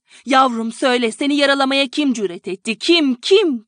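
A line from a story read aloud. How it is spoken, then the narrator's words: Continued shouting. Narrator (Turkish): diye bağırmaya devam ediyordu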